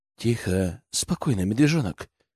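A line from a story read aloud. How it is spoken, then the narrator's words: Hiss. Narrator (Russian): прошипел я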